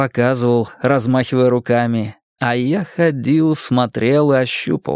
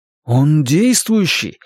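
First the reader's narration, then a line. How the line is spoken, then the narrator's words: Exclaimed. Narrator (Russian): воскликнул я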